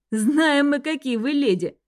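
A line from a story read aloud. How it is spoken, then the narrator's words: Laughing. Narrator (Russian): рассмеялся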